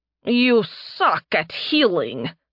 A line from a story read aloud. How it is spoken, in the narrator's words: Nerevia spat at Narime